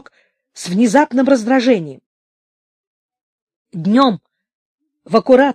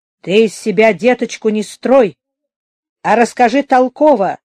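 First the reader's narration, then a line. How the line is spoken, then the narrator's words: Angry, low voice. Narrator (Russian): не повышая голоса, сердито сказал Туркенич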